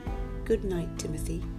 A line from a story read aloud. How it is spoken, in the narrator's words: With his face near the tiger's, he mumbled